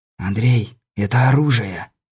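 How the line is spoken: Whispered in ear. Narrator (Russian): шепнул на ухо Лунёву Сансаныч

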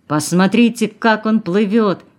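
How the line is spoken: Shouting traveler. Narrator (Russian): кричал попутчик Нины

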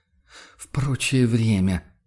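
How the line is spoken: Weary sigh. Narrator (Russian): вздохнул охотник устало

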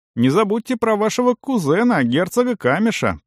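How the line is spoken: Cheerful half-elf. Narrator (Russian): весело добавил полуэльф

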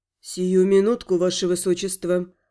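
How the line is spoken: Willing, eager reply. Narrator (Russian): Охотно отозвался чероплет

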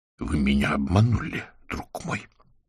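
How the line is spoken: Whisper. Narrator (Russian): прошептал Виктор

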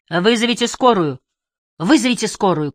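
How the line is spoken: Shouting. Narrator (Russian): кричал Райерсон

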